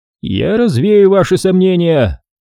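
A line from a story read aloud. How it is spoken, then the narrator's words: Thundering. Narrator (Russian): прогремел Ксанатос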